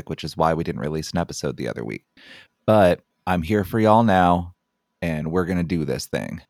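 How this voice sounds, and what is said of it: Sick-sounding voice. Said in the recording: “If you can't tell by my voice, I am still currently sick”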